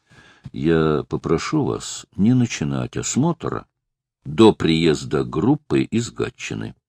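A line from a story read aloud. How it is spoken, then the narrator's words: Plain. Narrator (Russian): сказал Лысенко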